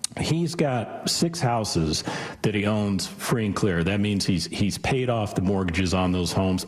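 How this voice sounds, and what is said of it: Croaky voice, frog in throat. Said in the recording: “Excuse me. I've got a frog in my throat.”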